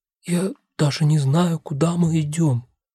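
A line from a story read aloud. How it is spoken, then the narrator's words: Quiet reply. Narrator (Russian): так же тихо отвечает мне она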